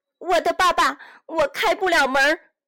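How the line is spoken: Shouting from outside. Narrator (Chinese): 杰佩托从外面的路上叫喊

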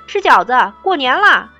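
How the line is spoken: Loud childlike shouting. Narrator (Chinese): 都像孩子一样大声地叫着

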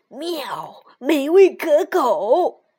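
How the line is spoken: Loud cat announcement. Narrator (Chinese): 猫大声宣布

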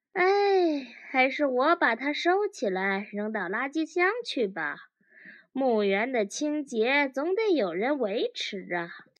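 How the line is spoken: Insincere sigh. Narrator (Chinese): 叹了口气，假惺惺地说

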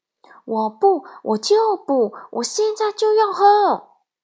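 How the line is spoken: Loud whining. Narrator (Chinese): 小鹦鹉大声嚷嚷着

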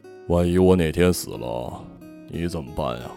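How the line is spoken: Mournful sigh. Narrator (Chinese): 父亲 哀叹一声

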